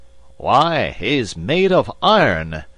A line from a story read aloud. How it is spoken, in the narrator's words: exclaimed the general, gazing admiringly